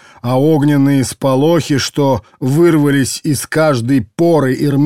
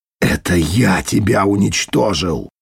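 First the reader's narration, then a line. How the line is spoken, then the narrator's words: Hissed through pain. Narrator (Russian): прошипел сквозь сжатый от всемирной боли Дитер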